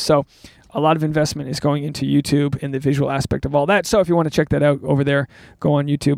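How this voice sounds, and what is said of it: Hoarse, strained voice. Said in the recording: “my voice is gone, guys. I don't know if you can tell.”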